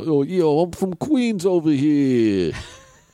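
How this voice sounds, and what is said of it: Put-on New York Queens accent. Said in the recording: “real East Coaster, New York, Queens... Real Queens accent”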